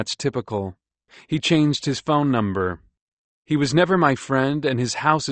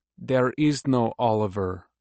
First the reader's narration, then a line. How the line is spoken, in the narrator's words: a woman with a Lebanese accent says